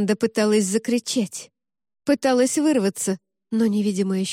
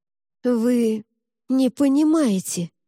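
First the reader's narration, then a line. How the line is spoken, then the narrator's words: Strained, breathless exhale. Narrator (Russian): через силу едва дыша выдохнул архиепископ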